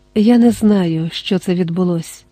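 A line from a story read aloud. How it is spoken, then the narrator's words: Tender voice. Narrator (Ukrainian): ніжно сказав він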